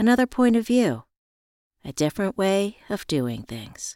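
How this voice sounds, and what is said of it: Usual voice. Nothing is said of it.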